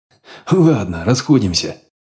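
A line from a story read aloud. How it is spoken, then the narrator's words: Command after laughing. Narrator (Russian): отсмеявшись, велел батя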